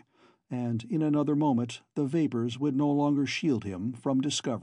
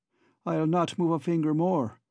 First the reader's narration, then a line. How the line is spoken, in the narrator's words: cried